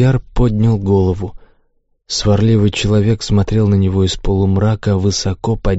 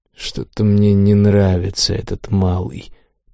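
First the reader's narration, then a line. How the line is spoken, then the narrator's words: Grumpy mutter. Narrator (Russian): пробормотал сварливый человек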